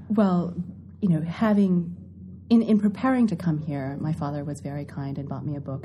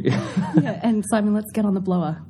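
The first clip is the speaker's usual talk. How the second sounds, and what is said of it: Put-on Australian accent. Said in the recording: “you said that with an Australian accent too... I've been working on it”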